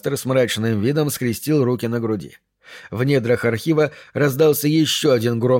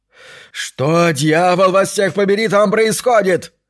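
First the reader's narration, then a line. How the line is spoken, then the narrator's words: Yelling. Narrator (Russian): заорал Брисбен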